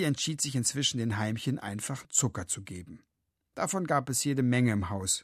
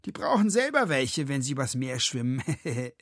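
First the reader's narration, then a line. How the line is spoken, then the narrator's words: Mocking, nasty laugh. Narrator (German): spottete Sven, bevor er fies lachte und sagte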